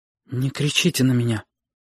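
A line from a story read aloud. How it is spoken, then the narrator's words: Quiet. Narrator (Russian): тихо сказала Сашка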